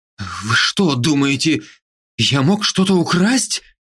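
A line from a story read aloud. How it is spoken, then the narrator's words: Frightened mutter. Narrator (Russian): испуганно забормотал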